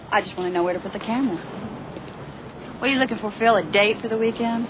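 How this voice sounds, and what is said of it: Mild South Carolina accent. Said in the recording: “Gaffney, South Carolina, where the accent is very thick ... she asked me if she could use her something like her real accent ... here she's got a bit of that Gaffney, South Carolina”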